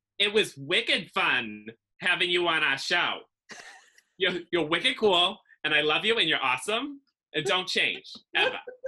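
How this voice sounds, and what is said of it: Nasal Massachusetts accent. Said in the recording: “I have like this nasally, awful, like feminine Massachusetts accent that I hate”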